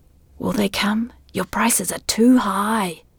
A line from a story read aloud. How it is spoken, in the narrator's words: the voice whispered